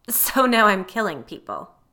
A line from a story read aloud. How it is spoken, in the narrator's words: the woman scoffed